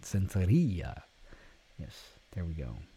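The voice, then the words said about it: Vaguely Spanish-accented pronunciation. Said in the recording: “I am legally required to pronounce it with a vaguely Spanish accent.”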